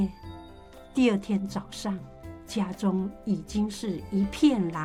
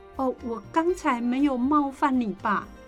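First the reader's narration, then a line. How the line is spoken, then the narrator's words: Plain. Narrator (Chinese): 季珍问道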